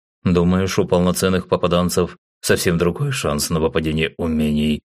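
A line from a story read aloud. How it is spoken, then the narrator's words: Relaxed snort. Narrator (Russian): хмыкнул расслабленно Айзек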